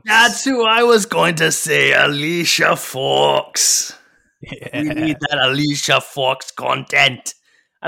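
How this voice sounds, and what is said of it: Mixed Welsh, Irish, Scottish accent. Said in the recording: “I don't know what accent I'm doing. It's not even Noam Dar anymore. I'm just an unhinged man. ... you've somehow managed to combine the Welsh, the Irish, and the Scottish accent.”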